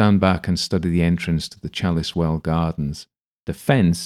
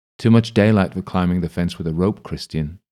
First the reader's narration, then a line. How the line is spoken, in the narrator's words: Ailsa says